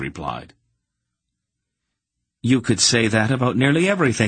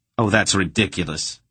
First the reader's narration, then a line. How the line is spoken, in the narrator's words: he scoffed